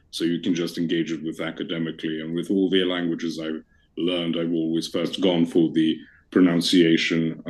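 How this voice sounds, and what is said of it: Fancy received pronunciation English accent. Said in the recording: “I love your accent ... it's just received pronunciation ... That's why I sound so fancy”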